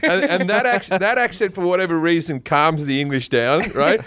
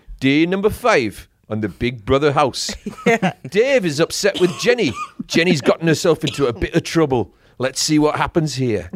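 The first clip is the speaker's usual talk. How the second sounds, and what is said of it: Put-on Geordie accent. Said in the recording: “Geordie is from Newcastle”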